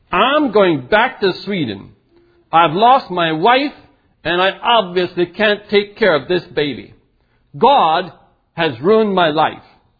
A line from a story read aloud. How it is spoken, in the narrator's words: he snarled